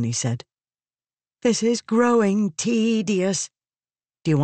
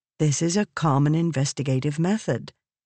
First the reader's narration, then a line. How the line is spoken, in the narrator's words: Navani said calmly